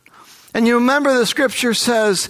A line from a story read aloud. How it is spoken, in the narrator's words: he cries out